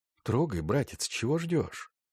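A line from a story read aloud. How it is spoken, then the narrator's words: Quiet. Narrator (Russian): после очередного раската тихо сказал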